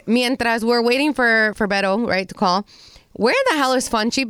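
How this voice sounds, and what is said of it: Weird, congested voice. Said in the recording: “my voice is weird right now ... porque tienes catarro”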